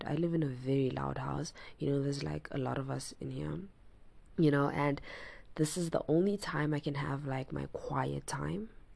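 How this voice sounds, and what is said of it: Raspy voice. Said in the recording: “my voice is a little raspy... I don't know how to not make it raspy”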